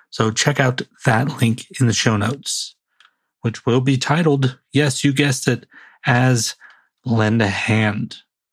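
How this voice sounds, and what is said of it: Raspy voice. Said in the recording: “I'm getting the raspy voice”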